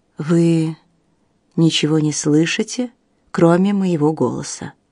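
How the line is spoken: Gentle coaxing. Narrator (Russian): мягко увещевал Бартон

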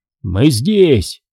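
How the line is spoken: Shouted. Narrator (Russian): крикнул Том

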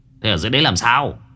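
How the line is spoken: Annoyed shout. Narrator (Vietnamese): Anh Quyền bực mình quát

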